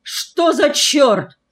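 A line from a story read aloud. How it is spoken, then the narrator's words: Father yelling. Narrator (Russian): заорал отец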